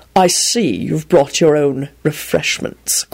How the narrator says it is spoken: Quentin drawled out in a haughty manner

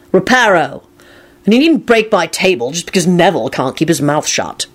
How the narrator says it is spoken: Lupin said crossly to Kingsley

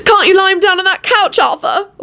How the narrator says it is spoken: Elizabeth wailed

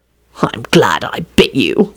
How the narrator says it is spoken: Lupin muttered furiously

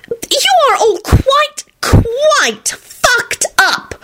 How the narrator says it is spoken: Solange screeched

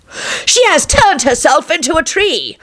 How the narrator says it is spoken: screamed the charlatan

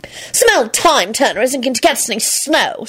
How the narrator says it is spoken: Solange replied impatiently

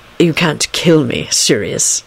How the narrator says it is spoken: he said in a disgusted voice

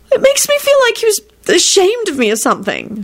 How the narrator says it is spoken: she blurted out

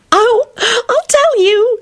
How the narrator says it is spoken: she yelped gleefully

